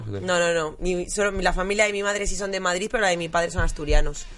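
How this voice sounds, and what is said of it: Madrid Spanish accent. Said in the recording (Spanish): “Te da acento madrileño.”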